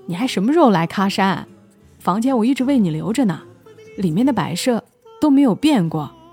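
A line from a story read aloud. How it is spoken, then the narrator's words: Smiling question. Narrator (Chinese): 伊万笑着回问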